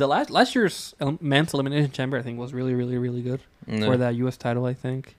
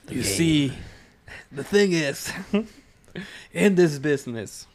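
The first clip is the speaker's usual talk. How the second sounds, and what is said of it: Imitates another person's voice. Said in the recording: “my Triple H impression.”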